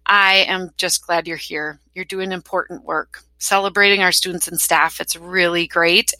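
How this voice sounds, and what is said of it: Wisconsin accent. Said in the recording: “my imperfect Wisconsin accent”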